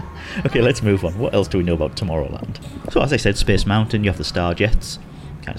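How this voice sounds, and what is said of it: Usual voice. Nothing is said of it.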